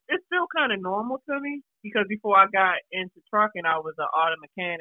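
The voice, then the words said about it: Baltimore accent. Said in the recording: “You definitely got that Baltimore accent, man.”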